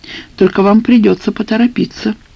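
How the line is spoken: Sigh. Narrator (Russian): вздохнула Наташа

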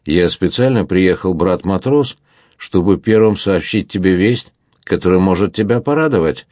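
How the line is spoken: Plain. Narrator (Russian): сказал Монбар

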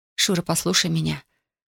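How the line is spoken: Muffled mumbling. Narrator (Russian): бормотала она, уткнувшись в его грудь

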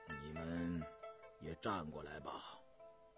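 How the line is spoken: Flat, casual tone. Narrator (Chinese): 尹太淡淡地说道

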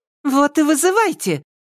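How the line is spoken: Fearless exclamation. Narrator (Russian): бесстрашно воскликнула Марья

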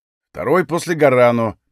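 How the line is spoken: Young man grumbling. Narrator (Russian): проворчал парень

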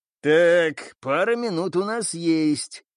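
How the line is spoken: Breathed out. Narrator (Russian): выдохнул киборг

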